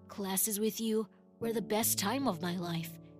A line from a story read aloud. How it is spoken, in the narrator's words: he said